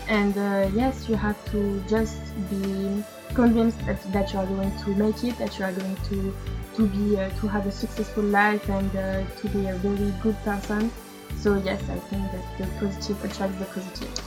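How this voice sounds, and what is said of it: Non-native English accent. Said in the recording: “The accent is very, very nice.”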